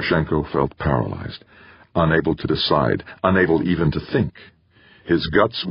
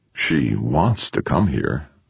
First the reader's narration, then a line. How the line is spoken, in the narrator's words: Eberle purred